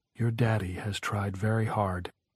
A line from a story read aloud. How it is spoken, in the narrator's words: she said softly